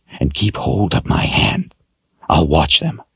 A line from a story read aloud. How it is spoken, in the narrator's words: whispered